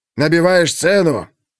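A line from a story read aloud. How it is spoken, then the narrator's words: Angry shouting. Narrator (Russian): Отец Пандоры уже не говорил, а кричал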